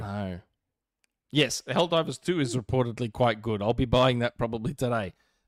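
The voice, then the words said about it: Speaks with a noticeable accent. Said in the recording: “when I say Ratchet, it with my accent, it almost sounds like I'm saying rat shit”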